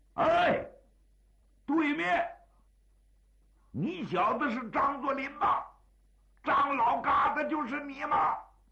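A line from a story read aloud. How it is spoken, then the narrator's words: Raised, disdainful voice. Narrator (Chinese): 任战魁把嘴一撇，提高声音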